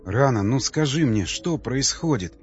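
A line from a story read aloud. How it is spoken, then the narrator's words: Pleading tone. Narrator (Russian): умоляющим тоном произнес Николай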